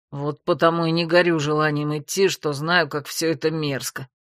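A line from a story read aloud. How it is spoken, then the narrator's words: Grumbling. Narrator (Russian): пробурчал Грег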